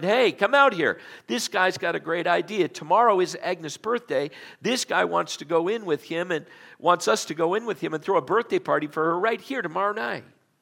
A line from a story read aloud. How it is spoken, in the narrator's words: Calling to his wife who did the cooking in the back room, he shouted